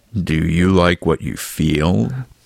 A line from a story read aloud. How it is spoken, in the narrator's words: the larger murmured